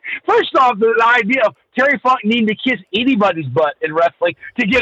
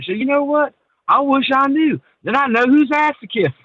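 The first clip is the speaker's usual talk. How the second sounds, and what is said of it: Terry Funk impression. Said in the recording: “my Terry Funk impression.”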